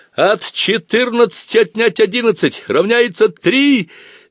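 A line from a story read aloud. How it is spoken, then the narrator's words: Shout over imagined cannon fire. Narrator (Russian): закричал я так, словно вокруг и в самом деле гремела канонада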